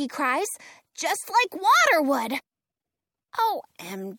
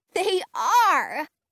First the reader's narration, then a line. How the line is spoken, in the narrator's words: Frankie cries, her eyes sparkling